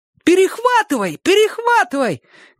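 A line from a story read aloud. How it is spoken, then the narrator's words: Shouted in unison. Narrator (Russian): крикнули все в один голос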